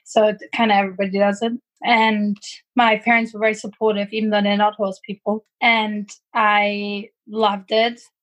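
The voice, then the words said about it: German accent. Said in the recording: “I grew up in Germany, as you can tell by my accent.”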